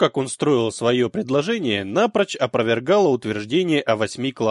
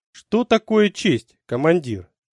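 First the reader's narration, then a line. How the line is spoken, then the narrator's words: Calm question. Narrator (Russian): спокойно спросил Сурендра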